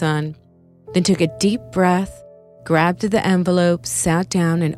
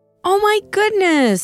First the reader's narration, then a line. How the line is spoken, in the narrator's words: she exclaimed out loud